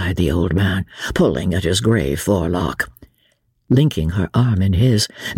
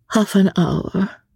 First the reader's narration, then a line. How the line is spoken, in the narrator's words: she said, looking wistfully out to sea